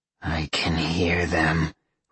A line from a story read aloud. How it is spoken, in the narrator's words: Roxy growled